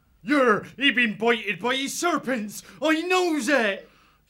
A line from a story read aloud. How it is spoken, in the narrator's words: The old squirrel shouted